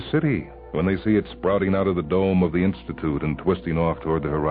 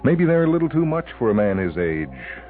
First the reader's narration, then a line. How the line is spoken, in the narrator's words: she chuckles